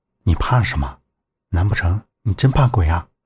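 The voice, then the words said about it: Quiet, hushed voice. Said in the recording (Chinese): “小声说道”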